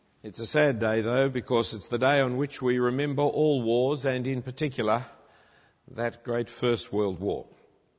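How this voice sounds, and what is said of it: Australian accent. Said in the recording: “not hearing a Canadian accent, but an Australian”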